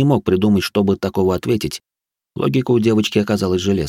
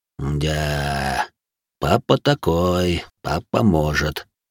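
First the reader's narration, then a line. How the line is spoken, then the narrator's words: Thoughtful drawl. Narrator (Russian): задумчиво протянул Салих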